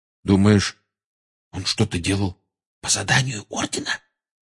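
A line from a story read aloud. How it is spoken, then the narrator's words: Whispered question. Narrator (Russian): шепотом спросил Рон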